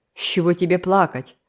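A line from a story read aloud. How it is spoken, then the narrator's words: Rude female question. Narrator (Russian): грубо спросила ее заловка, Камила Блейк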